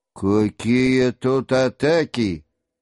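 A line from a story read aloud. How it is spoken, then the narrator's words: Bored voice. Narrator (Russian): сказал начальник скучливым голосом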